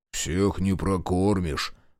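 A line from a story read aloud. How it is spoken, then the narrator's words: Deep bass voice. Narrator (Russian): Пробасил он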